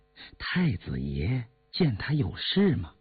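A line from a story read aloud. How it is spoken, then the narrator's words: Soft, shy voice. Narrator (Chinese): 陈家游是个腼腆人，柔声细气地说道，又问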